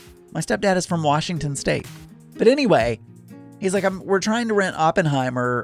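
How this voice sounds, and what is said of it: Usual voice. Nothing is said of it.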